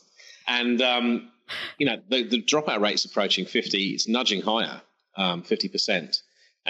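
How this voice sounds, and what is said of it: English accent. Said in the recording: “I'm English, by the way, sorry for any listeners. Apologize for my accent in advance.”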